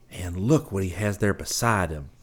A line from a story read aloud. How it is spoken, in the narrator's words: Scotty whispered